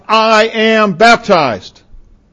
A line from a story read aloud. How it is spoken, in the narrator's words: he would shout